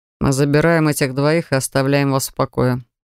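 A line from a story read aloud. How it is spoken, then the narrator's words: Dry curt tone. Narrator (Russian): сухо произнес Ричард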